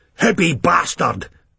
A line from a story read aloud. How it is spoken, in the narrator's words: a youth shouted